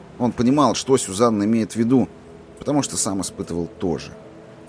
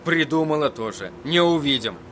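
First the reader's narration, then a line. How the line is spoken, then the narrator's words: Rude, curt interruption. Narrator (Russian): грубо оборвал ее Эдди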